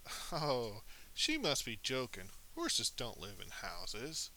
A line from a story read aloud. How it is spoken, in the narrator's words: the white horse laughed and said